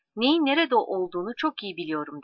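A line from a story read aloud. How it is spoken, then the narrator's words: Plain. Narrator (Turkish): dedi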